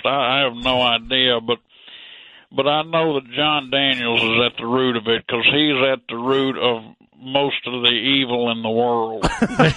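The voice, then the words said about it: Slowed, warped, drowning-sounding voice. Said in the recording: “Are you drowning? ... sometimes it sounds like my voice is a spoken word album with someone's thumb put down on it”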